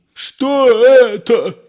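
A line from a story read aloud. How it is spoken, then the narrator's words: Yelling. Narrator (Russian): вопил Воробьянинов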